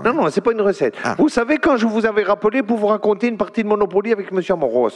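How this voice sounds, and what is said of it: Marseille accent. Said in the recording (French): “cette voix, cet accent. C'est ... de Marseille ? ... fait surtout votre accent.”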